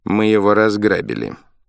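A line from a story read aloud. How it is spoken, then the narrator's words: Gloomy reply. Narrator (Russian): мрачно ответил главный Валерьян Борисович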